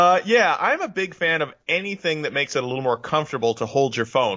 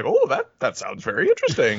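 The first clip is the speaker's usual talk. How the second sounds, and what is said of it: Imitates an older person's voice. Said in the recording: “that's my impression of somebody who's 50.”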